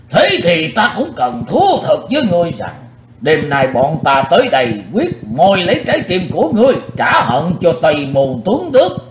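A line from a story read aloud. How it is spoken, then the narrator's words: Loud gruff old man's shout. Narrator (Vietnamese): Lão râu ria sầm soàn quát lớn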